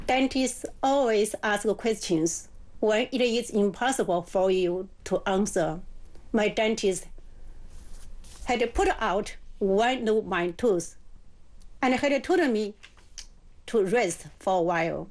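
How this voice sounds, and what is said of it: English with a slight accent. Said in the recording (Chinese): “口音估计带点口音”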